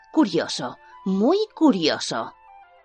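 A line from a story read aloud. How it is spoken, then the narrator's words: Murmuring. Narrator (Spanish): todavía murmurando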